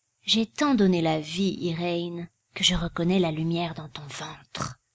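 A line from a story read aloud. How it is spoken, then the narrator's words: Murmuring. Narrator (French): murmura-t-elle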